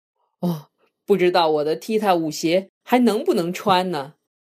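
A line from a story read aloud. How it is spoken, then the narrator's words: Laughing old man. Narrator (Chinese): 爷爷笑着说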